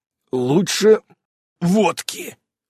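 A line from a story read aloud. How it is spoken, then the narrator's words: Hoarse. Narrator (Russian): хрипло произнес отец семейства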